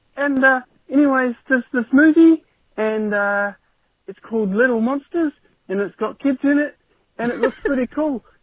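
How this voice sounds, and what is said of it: New Zealand accent, child's voice. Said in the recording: “I'm obviously a Kiwi kid, just judging by my accent”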